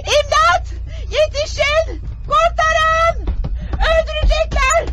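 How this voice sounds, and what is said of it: Shouting for help. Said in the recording (Turkish): “Bağırman”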